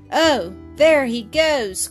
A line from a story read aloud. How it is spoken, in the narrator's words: cried Bobby, much disappointed